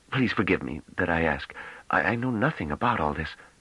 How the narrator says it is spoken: he added in a choked whisper

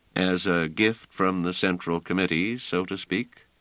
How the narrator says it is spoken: said Trevise dryly

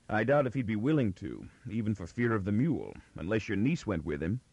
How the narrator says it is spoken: Miz responded dryly

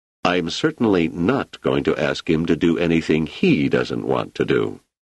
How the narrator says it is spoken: Selden said firmly

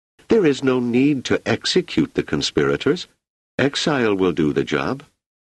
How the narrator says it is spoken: she exclaimed

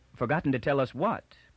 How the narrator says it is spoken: put in Toran quickly

